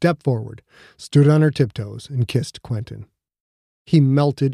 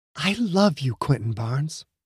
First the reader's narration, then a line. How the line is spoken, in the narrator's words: whispered in his ear